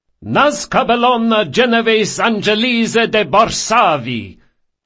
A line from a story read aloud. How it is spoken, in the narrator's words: her father thundered